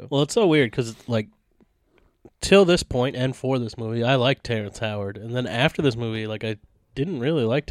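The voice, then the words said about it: Congested, stuffy voice. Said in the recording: “I sound congested ... it's really fucking with my chest”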